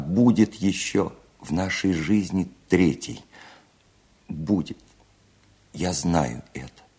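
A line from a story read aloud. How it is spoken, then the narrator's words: Tearful whisper. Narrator (Russian): плача и не утирая слез, прошептала она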